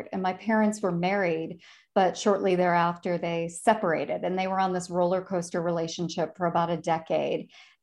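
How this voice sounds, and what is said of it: Slight Chicago accent. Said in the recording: “you can kind of hear my Chicago accent”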